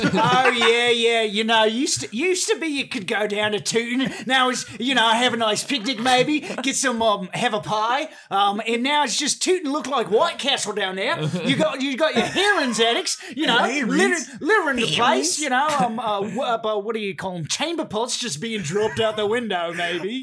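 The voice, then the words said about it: Put-on accent drifting toward Australian. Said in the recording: “Your accent kind of started as like with Australian. ... A little Kiwi.”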